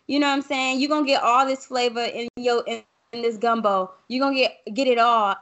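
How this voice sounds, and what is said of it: Southern twang accent. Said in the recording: “I don't code switch. You're gonna hear my southern twang.”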